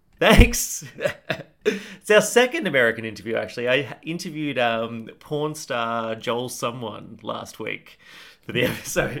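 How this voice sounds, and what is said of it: Speaks with a noticeable accent. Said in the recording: “Cool accent.”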